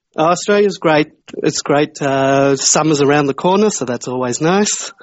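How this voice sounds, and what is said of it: Australian accent. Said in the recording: “What a lovely accent that is... You're a tasty Australian”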